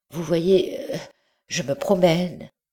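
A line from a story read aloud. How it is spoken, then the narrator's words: Stammering. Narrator (French): répondit-il en balbutiant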